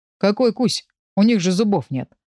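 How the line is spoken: Mocking snort. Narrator (Russian): фыркнул насмешливо Блэк

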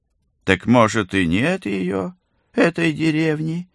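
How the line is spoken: Mocking old man. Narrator (Russian): насмешливо прищурился старичок

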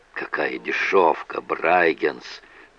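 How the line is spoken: Muttering. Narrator (Russian): пробормотал Масгроув

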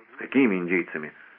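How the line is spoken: Weary question. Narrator (Russian): устало переспросил Лешер

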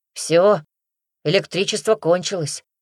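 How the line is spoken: Sighed. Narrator (Russian): вздохнул Григорий

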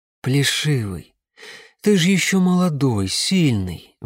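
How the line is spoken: Sighing. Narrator (Russian): вздохнула мама

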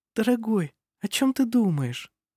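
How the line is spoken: Vulnerable tender cooing. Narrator (Russian): проворковала Никола в своей трогательной беззащитности, напоминая раненую птицу

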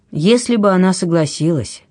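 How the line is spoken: Sighing. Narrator (Russian): Левента вздохнул

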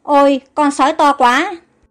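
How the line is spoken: Frightened speech. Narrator (Vietnamese): Caron sợ hãi nói

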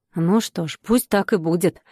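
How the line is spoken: Grumbling. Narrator (Russian): проворчала Параша

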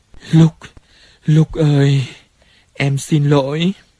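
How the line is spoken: Moaning apology. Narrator (Vietnamese): Cô rên lên

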